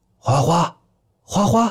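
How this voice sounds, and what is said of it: Soft quiet calling. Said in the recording (Chinese): “小声叫着猫的名字”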